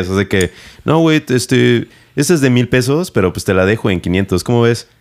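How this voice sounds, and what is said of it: Northern Mexican accent. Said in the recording (Spanish): “tú con tu acento norteño”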